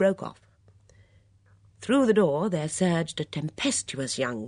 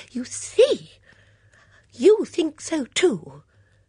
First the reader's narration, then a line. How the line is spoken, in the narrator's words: Dora cried triumphantly